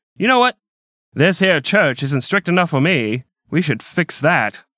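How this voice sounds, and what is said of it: Old-timey New York speakeasy accent. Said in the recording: “old-timey voice. ... That accent is actually on period. ... New York speakeasy accent”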